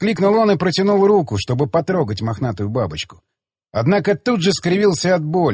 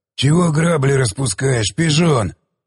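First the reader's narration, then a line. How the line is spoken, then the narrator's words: Growling. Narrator (Russian): прорычал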